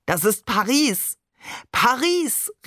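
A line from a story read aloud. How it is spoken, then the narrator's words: Calling out. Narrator (German): rief Barbe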